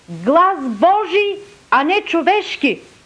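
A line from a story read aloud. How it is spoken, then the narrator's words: Crowd shouting. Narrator (Bulgarian): народът извика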